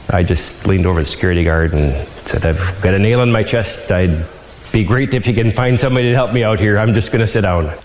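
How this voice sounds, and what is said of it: Upper Midwest accent, sounds Canadian. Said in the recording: “He is the epitome of a Canadian who's just like, oh hey, sorry to bother you ... It sounded Canadian to me ... Wisconsin”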